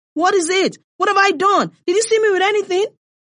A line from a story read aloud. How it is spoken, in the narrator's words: Salma heard herself shouting